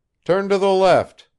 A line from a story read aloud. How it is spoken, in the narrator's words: shouted Arkady